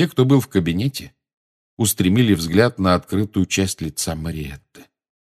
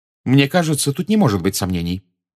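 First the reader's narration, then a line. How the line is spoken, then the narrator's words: Sharp. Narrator (Russian): резко произнесла профессор МакГонагал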